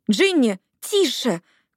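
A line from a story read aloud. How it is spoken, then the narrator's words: Shout drowned by engine. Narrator (Russian): крикнула Лили из переднего кресла, но ее голос утонул в реве мотора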